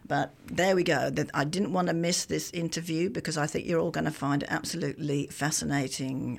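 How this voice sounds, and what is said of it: Congested voice from a cold. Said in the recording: “My voice is a little bit different today because I have got a bit of a head cold.”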